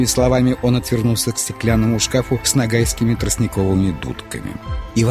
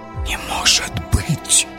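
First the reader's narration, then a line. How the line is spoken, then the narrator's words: Gentleman whispering. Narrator (Russian): шепотом произнес господин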